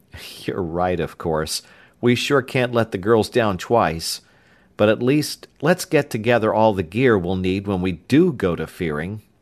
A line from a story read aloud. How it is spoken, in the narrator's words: With a sigh, Tom added